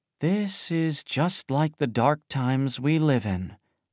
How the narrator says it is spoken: muttered Ye Wenjie

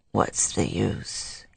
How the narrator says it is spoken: he said weakly

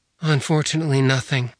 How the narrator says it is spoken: she said with a sigh

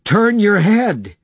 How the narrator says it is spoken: he shouted

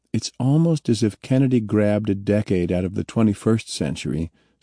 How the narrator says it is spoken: Cernan said

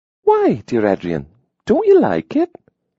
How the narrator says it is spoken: Lydia asked sweetly

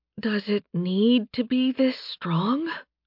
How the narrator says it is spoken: Charlotte muttered

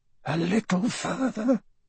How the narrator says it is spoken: the man murmured

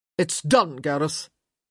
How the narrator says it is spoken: his father said sharply

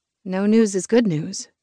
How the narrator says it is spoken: I said, my voice gentling

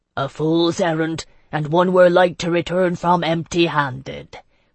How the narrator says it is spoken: Quintilius Rouse said grimly

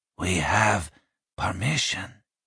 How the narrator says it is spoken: he said quietly

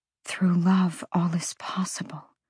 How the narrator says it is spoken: Bryce whispered

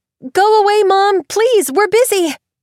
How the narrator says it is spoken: Willa had shouted

